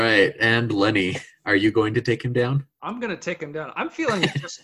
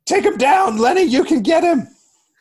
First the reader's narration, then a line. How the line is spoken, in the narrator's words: going to yell